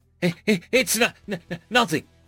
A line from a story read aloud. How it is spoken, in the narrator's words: Alan stammered